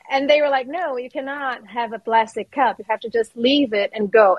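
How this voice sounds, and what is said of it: Latina accent in English. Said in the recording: “Latina ... I think they heard my accent. They were like, you're not from here.”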